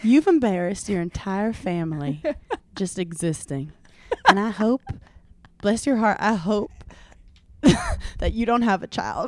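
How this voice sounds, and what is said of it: Imitation of a woman's accent. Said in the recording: “funny in her accent ... I was doing Madison's accent in old school Giggly Squad days”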